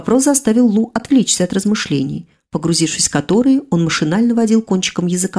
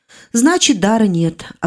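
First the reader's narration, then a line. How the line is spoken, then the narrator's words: Resigned sigh. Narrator (Russian): обреченно вздохнула я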